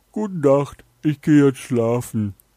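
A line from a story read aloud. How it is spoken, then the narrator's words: Dog calling out. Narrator (German): Dort angekommen, ging der Hund in sein Haus und rief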